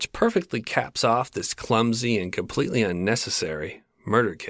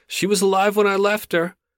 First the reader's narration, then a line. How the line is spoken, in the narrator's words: the exterminator blurted out